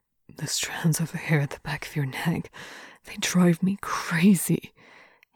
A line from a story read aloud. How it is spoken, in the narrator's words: he murmurs